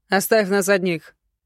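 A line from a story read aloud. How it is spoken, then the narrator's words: Stern. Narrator (Russian): строго сказал Рейган барону Битли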